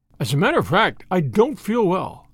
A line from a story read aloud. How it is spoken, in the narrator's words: said the Count